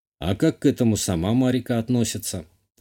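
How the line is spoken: Thoughtful. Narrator (Russian): задумчиво спросил я

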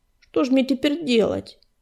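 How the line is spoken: Dejected question. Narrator (Russian): уныло спросил Бурый

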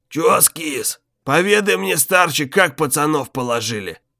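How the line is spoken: Bandit's hoarse rasp. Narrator (Russian): прохрипел старику в лицо бандит

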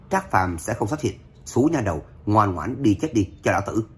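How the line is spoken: Loud mocking laughter. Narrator (Vietnamese): Lâm Thành Phong càng cười to lên chế nhạo

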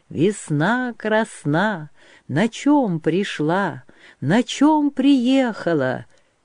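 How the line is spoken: Strong clear singing. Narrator (Russian): Аулита-хороводница запела сильным, чистым голосом

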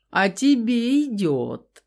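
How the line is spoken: Forced out through laughter. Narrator (Russian): Сквозь смех выдавил Дор

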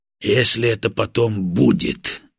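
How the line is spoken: Angry curt retort. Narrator (Russian): зло отрезал полковник

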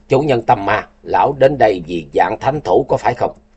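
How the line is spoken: Harsh stressed voice. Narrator (Vietnamese): Tình Hải Ma Tử gằn giọng

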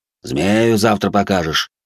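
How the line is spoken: Officer's dismissive grunt. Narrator (Russian): Старший лейтенант хмыкнул

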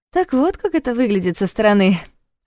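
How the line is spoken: Laughing. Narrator (Russian): рассмеялась та

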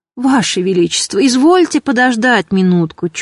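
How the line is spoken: Tearful pleading old man. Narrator (Russian): чуть не плача взмолился старик

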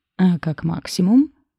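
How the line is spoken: Wry hum. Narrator (Russian): хмыкнул он

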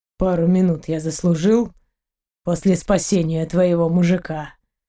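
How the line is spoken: Rougher-voiced pirate asking back. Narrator (Russian): уже более грубым голосом переспросил пират

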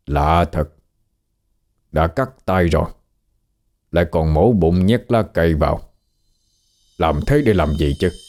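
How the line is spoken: Very quiet muttering. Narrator (Vietnamese): Ông Tám Kheo lẩm bẩm rất nhỏ

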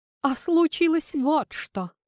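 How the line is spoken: Sighing. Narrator (Russian): вздохнула Ванесса

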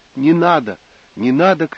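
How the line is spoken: Female shouting. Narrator (Russian): кричала она

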